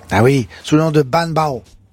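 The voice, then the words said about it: Put-on Vietnamese-style accent. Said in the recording (French): “Excusez-moi pour l'accent.”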